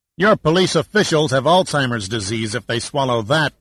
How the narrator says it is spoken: snapped Giordino

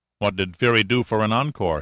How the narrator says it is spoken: he asked

